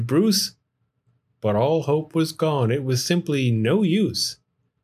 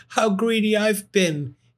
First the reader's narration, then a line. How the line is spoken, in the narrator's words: exclaimed with a splutter